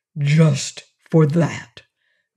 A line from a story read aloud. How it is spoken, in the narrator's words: repeated Quox in a stern, gruff voice